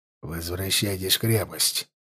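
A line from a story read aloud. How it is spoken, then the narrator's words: Quiet command. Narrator (Russian): приказал он тихо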